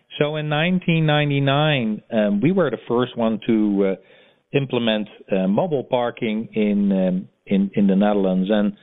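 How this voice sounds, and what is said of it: Dutch accent in English. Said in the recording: “as you can hear from my accent, I'm originally from Europe, from Amsterdam”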